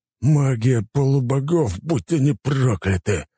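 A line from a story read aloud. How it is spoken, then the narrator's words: Angry hiss. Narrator (Russian): зло прошипел адмирал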